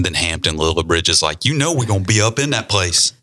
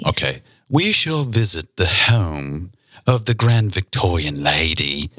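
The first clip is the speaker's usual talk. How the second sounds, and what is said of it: Put-on English-style accent. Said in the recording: “now you're going into like an English accent, sort of.”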